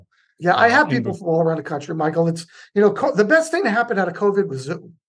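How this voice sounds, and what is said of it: New York area accent. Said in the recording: “I heard it. I knew I heard an accent. ... I'm still from the New York area, New Jersey, New York.”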